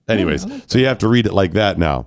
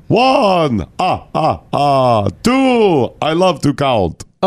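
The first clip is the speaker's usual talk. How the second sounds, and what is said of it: Count from Sesame Street impression, throaty. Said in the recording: “your impression of the count ... The count from Sesame Street ... it's from the back of the throat”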